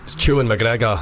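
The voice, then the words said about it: Good put-on accent. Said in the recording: “That's quite a good accent. You like that, quite impressed.”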